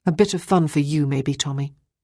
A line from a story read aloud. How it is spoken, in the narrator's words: Ruth said coldly